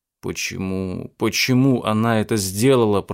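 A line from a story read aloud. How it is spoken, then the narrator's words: Moaning. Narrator (Russian): простонал я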